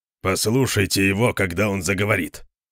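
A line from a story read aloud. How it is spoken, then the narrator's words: Grumbling. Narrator (Russian): проворчал Конан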